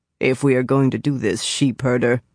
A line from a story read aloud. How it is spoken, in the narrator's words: Lan said grimly